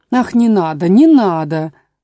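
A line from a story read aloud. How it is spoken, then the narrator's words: Desperate exclamation. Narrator (Russian): воскликнула королева, в отчаянии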